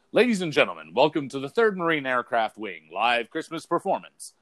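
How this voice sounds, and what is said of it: Announcer voice. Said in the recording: “I would go into my announcer voice”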